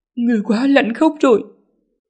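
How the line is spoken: Trembling. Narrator (Vietnamese): run rẩy nói

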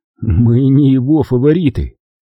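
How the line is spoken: Laughing. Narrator (Russian): рассмеялся Дональд

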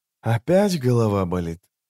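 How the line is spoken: Soft question. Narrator (Russian): мягко спросил он

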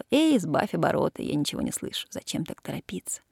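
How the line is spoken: Laughing speech. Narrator (Russian): Она смеялась, говорила

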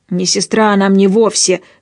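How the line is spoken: Yelling. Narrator (Russian): заорал Аун

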